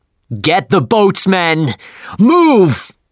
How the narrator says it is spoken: he shouted

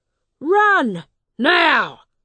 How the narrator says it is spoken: shouted

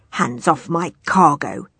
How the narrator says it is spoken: he growled at Harriet

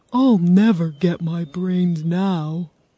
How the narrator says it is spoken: said the Scarecrow sadly

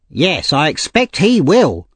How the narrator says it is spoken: said the lady angrily

